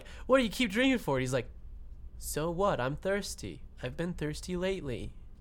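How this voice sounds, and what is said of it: Imitated cartoon kid voice. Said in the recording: “That's a great impression. ... You gotta go a little higher pitch.”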